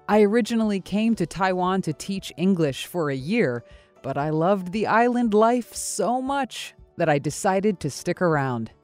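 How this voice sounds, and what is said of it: American accent. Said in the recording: “You might be able to tell from my accent that I'm from America.”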